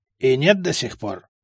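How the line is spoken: Smirking. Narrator (Russian): Я хмыкнул

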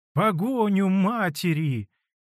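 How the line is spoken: Shouting. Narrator (Russian): закричала она

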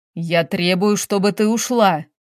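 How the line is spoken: Angry. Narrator (Russian): зло произносит Валерий

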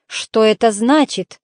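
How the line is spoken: Growled. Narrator (Russian): прорычал он

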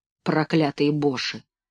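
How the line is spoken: Muttering. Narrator (Russian): пробормотал

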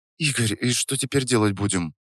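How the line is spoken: Quiet question. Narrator (Russian): Тихо спросила Настя

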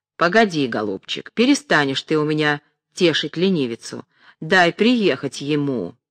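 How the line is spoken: Impatient, menacing. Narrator (Russian): Потеряв терпение, сказала грозно

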